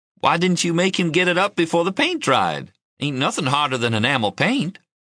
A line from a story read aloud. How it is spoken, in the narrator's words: Trying not to laugh, I said